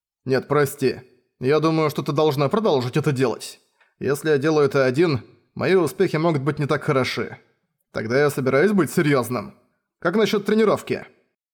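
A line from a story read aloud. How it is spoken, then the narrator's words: Indifferent snort. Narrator (Russian): Феррис безразлично фыркнула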